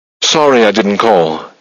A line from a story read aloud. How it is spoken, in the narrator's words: he blurted just in time